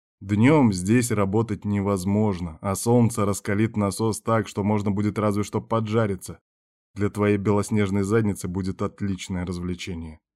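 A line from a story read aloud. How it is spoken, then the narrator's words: Growled. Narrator (Russian): рыкнул шеф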